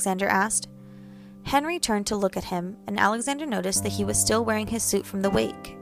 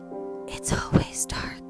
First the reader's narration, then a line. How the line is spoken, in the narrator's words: Henry wheezed